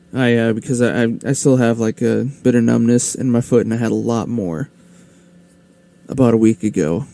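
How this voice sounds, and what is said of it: Hoarse, tired voice. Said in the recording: “I'm getting hoarse, that's weird. ... Had a little tired.”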